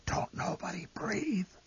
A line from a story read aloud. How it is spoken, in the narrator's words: The old man whispered hoarsely